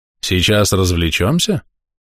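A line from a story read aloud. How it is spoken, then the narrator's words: Silky, insinuating question. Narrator (Russian): вкрадчиво поинтересовался голос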